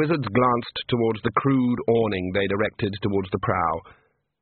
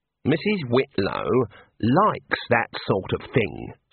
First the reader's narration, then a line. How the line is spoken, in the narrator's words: said the senior wrangler calmly